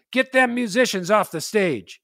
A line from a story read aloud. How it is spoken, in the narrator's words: The leader of the group, a big scary guy named Mustache Bill, yelled out